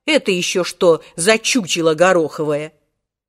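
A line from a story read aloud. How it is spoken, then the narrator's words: Loud bark, choking with laughter. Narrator (Russian): Волькин парикмахер, задыхаясь от смеха, гаркнул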